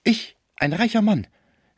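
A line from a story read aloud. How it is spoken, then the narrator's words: Desperate cry. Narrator (German): rief Schmucke voller Verzweiflung darüber, dass man ihn der Habgier verdächtigen könne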